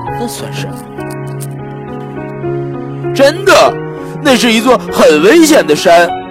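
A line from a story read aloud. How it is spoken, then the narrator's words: Monster mumbling. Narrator (Chinese): 大怪物嘟嘟囔囔地说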